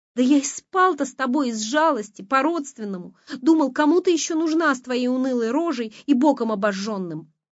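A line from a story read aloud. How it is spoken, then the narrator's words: Shout. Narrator (Russian): выкрикнул Костя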